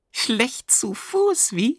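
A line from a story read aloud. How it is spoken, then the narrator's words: Soft giggle. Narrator (German): Gucki kicherte leise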